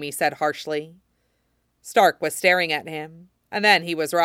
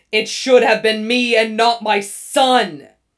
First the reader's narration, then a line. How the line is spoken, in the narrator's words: Stark was shrieking after him